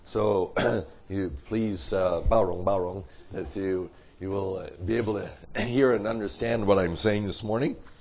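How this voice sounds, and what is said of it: Hoarse, froggy voice. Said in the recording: “Sorry for my voice. It's very froggy, we say.”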